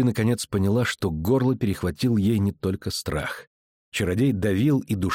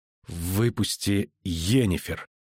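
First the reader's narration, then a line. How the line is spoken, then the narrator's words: Strained hoarse wheeze. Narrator (Russian): прохрипела она, корчась от усилий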